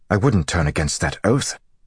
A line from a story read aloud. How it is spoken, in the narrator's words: Gowan said harshly